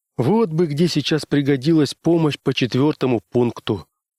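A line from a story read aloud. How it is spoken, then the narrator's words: Sighing. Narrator (Russian): вздохнул Адамс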